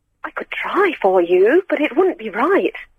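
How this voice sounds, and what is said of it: Put-on posh voice. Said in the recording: “do a posh voice? ... This is my phone voice”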